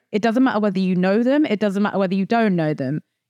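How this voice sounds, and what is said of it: Noticeable non-local accent. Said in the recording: “the accent gives it away pretty easily”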